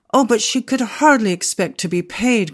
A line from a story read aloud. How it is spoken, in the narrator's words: cried Constantia